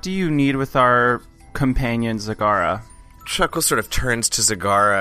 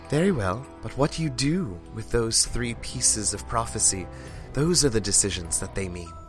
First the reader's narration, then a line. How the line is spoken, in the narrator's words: stares quietly, he says